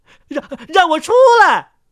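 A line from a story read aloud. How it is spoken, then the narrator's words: Muffled shout from inside box. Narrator (Chinese): 牧师在箱子里喊了起来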